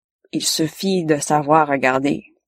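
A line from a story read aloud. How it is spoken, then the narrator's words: Plain. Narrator (French): dit-elle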